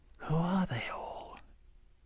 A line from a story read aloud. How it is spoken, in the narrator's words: Anna, a little frightened, leaned over to Klaus and whispered in his ear